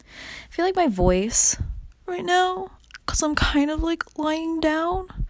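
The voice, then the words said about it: Creaky vocal fry voice. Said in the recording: “do you hear more vocal fry? ... when I lift my head up like this, I lift it up and it's like a lot more fresh.”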